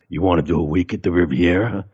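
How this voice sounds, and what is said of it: Bad impression of Steve Schirripa. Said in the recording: “bad Steve impression”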